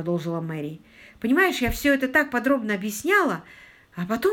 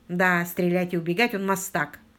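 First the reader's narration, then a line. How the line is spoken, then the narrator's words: Gloomy agreement. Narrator (Russian): мрачно согласился Питер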